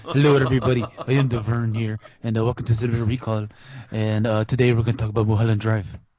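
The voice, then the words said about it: Imitates another person's voice. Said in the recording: “I could do a really good impersonation of you. ... That's pretty amazing.”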